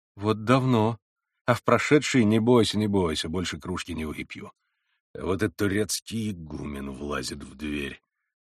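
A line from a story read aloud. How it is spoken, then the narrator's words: Through clenched teeth. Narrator (Russian): проговорил он сквозь зубы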